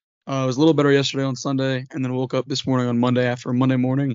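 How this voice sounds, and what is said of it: Hoarse, scratchy voice with sniffles. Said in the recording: “my voice sounds terrible today... Lost a little bit at the game on Saturday... a little bit of a sniffle... a little bit of a scratchy throat”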